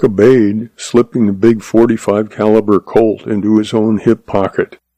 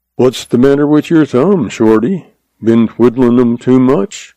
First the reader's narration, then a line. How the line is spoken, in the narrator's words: he asked dryly, his eyes twinkling